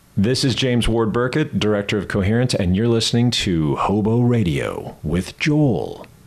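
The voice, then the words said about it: Old-school radio DJ voice. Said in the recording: “that was like old school DJ. ... That was like radio voice.”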